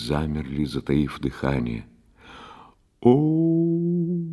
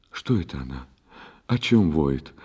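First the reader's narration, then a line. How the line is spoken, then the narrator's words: Frightened whisper. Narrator (Russian): испуганно прошептала Гулюмкан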